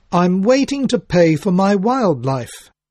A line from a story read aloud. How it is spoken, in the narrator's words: she announced in a loud voice